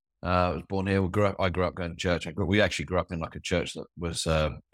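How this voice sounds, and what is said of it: New Zealand accent. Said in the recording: “we moved to New Zealand, as you can probably tell from my accent”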